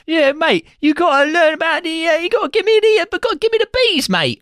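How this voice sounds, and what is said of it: Bad fake Cockney accent. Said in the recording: “cannot do a Cockney accent ... He sounds Dutch throughout this film ... full bore Dick Van Dyke shit”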